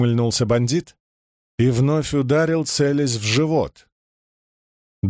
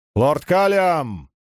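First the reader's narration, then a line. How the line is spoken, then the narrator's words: Shout. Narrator (Russian): крикнул незнакомец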